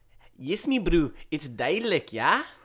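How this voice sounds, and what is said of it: Put-on South African accent. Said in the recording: “give us a little of South African accent ... I feel like I'm in Johannesburg ... That's more Cape Town”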